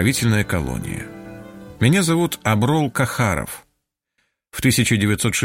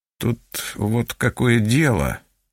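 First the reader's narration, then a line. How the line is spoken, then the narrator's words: Mumbling. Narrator (Russian): начал мямлить он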